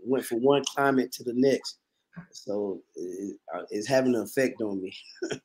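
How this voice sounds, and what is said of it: Slightly raspy voice. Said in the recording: “I sound a little raspy”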